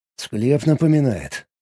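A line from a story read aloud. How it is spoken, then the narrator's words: Mumble. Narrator (Russian): пробормотал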